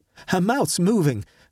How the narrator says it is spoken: I cried

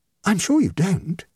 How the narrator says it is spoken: exclaimed her hostess, in defiant disregard of logic

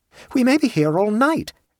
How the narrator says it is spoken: exclaimed Appleway

